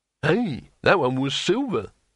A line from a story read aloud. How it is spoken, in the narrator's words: exclaimed Harun